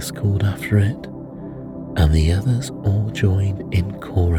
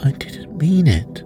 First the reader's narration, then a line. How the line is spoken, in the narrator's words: pleaded poor Alice